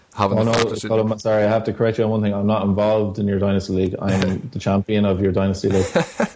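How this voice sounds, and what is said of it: Strong Galway Irish accent. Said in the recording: “he has a strong Galway accent. So it's good to get a different Irish twang”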